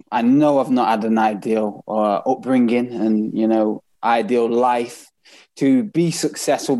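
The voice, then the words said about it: Manchester accent. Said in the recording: “I've got a Manchester accent now”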